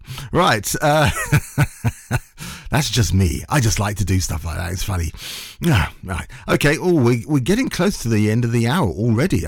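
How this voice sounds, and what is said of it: Rough, strained voice. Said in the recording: “excuse my voice. My voice is still a bit rough from Saturday. I lost it halfway through the journey, and then it came back”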